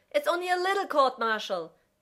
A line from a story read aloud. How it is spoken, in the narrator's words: John yells back